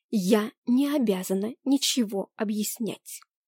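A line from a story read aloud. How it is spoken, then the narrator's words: Hoarse, holding back tears. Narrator (Russian): прохрипела я, еле сдерживая слезы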